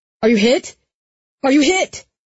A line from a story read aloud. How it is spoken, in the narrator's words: Jesse yelling